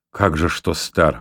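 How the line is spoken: Stern objection. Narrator (Russian): возразил Альберт строго

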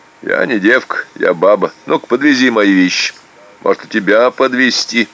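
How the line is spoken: Playful chuckle. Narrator (Russian): игриво, хохотнул я

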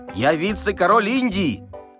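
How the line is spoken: Shouting. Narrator (Russian): крикнул берлага

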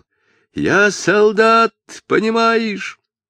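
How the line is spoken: Desperate furious shout. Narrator (Russian): отчаянно закричал медник, яростно продолжал

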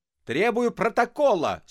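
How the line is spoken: Grandiloquent shout. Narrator (Russian): с пафосом закричал Остап

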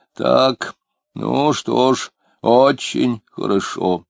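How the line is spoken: Muttering. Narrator (Russian): он бормотал

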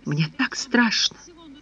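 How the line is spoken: Sobbing confession. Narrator (Russian): приправляя слова всхлипами, призналась Александра

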